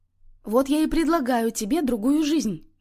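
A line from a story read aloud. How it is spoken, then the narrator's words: Exclaimed. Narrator (Russian): воскликнула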